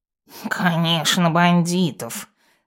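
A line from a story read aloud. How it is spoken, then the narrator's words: Hissing cat. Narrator (Russian): зашипел кот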